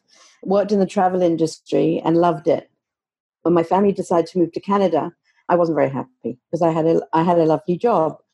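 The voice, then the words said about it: London English accent. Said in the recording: “I was born and raised in London, England, hence I have an accent.”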